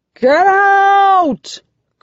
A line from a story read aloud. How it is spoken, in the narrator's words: Creighton yells